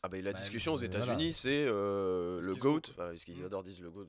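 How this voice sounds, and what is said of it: Slight pleasant foreign accent. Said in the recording (French): “t'as un petit accent sympa, toi.”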